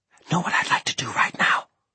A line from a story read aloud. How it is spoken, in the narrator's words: she whispered